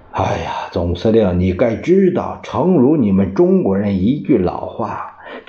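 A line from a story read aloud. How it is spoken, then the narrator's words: Sighing. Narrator (Chinese): 他叹了一口气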